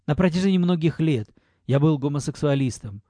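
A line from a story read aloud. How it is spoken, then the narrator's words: Low voice. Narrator (Russian): говорил низким голосом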